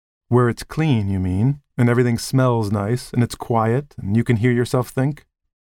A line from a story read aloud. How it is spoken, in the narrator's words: She laughed at herself, or perhaps for his sake, to reassure him